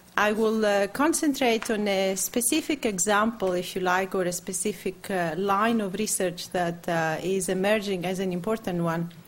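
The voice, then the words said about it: Greek-accented English. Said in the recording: “English with a Greek accent”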